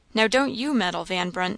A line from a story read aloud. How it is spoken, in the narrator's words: said the lady sharply